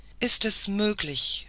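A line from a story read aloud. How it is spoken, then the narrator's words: Shaken exclamation. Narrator (German): rief die Scuderie, als sie sich einigermaßen erholt hatte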